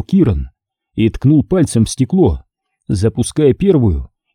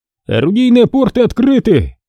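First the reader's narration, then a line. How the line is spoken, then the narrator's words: Shouted. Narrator (Russian): выкрикнул другой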